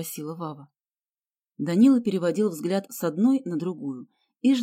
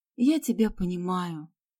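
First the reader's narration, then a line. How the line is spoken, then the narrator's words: Sigh. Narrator (Russian): вздохнула Галя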